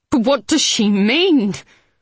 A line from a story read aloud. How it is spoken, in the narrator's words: the woman said again, more urgently